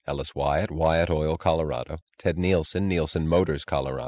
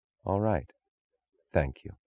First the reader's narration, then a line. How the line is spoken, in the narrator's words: She inclined her head and said gravely